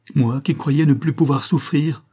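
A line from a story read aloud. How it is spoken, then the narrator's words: Exclaimed. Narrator (French): s'écria-t-il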